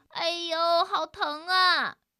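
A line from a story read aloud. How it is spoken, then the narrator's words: Crying out in pain. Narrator (Chinese): 特里也叫起来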